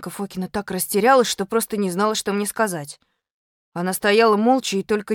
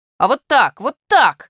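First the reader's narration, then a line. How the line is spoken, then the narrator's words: Indignant shouting. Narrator (Russian): возмущенно закричал я на Фокину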